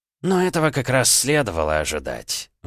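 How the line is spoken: Old man's sigh. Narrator (Russian): вздохнул старик

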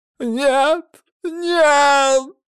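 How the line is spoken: Frantic shriek. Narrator (Russian): завизжал несчастный с бешеными глазами

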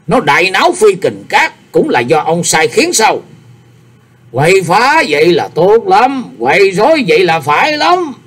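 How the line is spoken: Faint cold smile. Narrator (Vietnamese): Mình đấu cười nhạt nói

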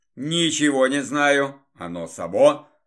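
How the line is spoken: Grumbled. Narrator (Russian): пробурчал я

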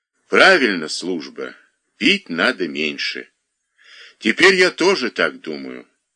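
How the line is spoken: Calm. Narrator (Russian): сказал спокойно Рыжебородый

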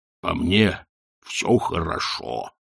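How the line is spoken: Grumble. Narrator (Russian): буркнул он

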